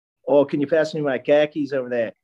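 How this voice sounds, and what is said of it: Put-on Boston accent. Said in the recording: “Give us your best Boston or just American accent... That's pretty good. You got the there.”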